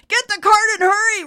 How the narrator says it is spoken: screamed

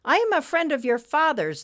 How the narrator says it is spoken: Nimbus blurted out

